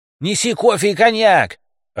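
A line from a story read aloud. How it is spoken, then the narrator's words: Shouting. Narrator (Russian): орал водитель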